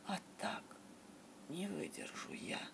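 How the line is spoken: Whisper. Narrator (Russian): прошептал детектив

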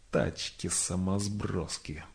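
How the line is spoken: Very quiet grumble. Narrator (Russian): проворчал сутулый совсем тихо, потому что людокони от этого прозвища свирепели

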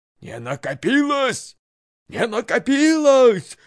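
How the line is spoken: Furious shouting. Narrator (Russian): закричала игуменья в страшном гневе

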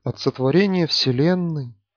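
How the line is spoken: Mournful drone. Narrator (Russian): заунывным голосом начал Панков

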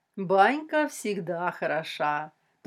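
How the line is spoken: Languid drawl. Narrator (Russian): томно протянула Людмила

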